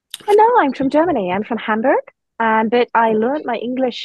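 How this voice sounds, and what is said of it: Slight Scottish accent. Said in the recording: “You got a little bit of a Scottish accent”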